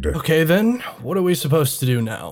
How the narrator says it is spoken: Avery sighed

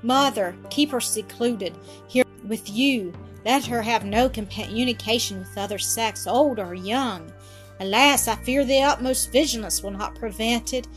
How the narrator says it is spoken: she cried, having a deep drawn sigh

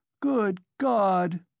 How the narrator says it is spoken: she cried

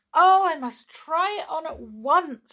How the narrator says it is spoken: she cried

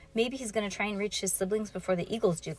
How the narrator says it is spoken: Klaus said

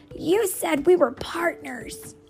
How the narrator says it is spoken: he yelled

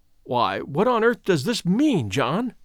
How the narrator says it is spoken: he stammered

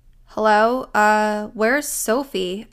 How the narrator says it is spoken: stammered

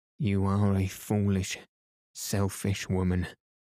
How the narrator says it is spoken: she said

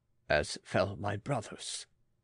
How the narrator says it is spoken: he muttered

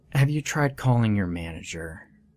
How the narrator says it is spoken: the lady sigh and say in an annoyed voice

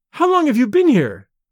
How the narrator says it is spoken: she cried

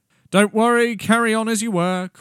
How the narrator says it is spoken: called out Kilvir

